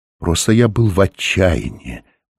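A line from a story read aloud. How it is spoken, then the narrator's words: Whisper. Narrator (Russian): прошептал Оренгороса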